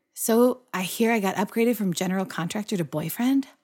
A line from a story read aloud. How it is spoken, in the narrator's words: As he held her close, he whispered